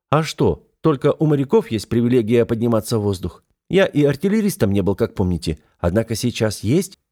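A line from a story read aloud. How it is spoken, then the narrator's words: Short chuckle. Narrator (Russian): хохотнул я коротко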